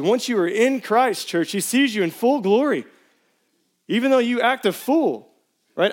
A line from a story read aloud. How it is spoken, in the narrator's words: I yelled this week at my 8-year-olds as if I were, in fact, an 8-year-old myself